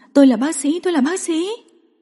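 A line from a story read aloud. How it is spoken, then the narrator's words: Loud, unhesitating. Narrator (Vietnamese): An Ninh không hề nghĩ ngợi, lớn tiếng nói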